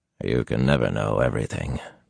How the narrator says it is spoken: Lan said quietly

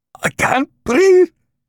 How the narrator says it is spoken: Kondroshin panted

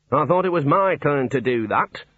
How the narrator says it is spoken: said the Dean coldly

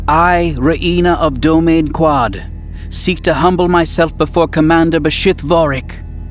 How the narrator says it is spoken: she said loudly and clearly in the Yuuzhan Vong language

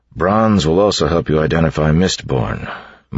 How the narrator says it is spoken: Marsh said

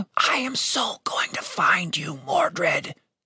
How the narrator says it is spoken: Tim whispered

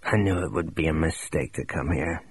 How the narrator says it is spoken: he mumbled

